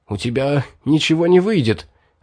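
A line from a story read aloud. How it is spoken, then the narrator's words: Hoarse voice. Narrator (Russian): охрипшим голосом сказал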